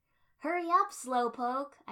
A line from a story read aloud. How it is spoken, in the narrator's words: I shouted at Naruto